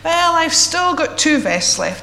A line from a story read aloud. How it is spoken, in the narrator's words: he said to himself